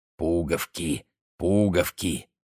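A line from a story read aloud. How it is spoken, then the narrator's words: Drunken mumble. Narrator (Russian): он сильно навеселе бормотал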